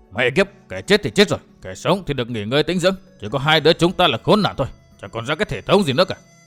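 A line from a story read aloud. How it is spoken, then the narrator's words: Irritated cursing. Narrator (Vietnamese): chửi rủa bực bội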